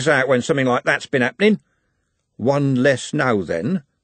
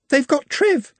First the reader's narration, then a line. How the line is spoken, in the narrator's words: she sobbed